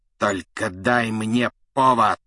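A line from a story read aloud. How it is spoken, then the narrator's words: Hissed. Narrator (Russian): прошипел Снег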